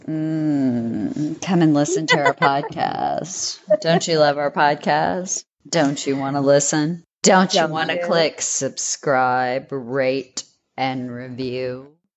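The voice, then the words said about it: Put-on sexy seductive voice. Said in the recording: “do my sexy voice”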